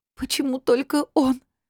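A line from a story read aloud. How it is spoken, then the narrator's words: Sobbing question. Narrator (Russian): всхлипывая, спросила Рита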